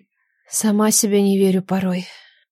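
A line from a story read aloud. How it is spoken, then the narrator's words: Whispered. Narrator (Russian): прошептала Нелада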